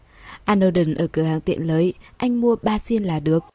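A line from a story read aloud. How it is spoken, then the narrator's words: Smiling. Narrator (Vietnamese): Cô mỉm cười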